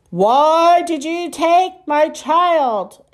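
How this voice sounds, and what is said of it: Deep booming alien voice. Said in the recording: “A deep voice boomed.”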